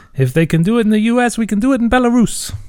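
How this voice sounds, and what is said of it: Vague put-on Eastern European accent. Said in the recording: “That's not a Belarusian accent. ... That's vaguely Eastern European.”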